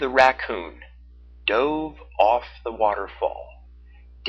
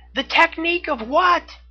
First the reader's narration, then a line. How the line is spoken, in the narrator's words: shouted back up in question